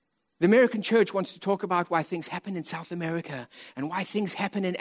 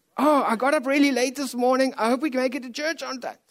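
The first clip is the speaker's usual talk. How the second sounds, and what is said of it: Mocking imitation of lazy churchgoers. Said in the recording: “I'm mimicking the beach people”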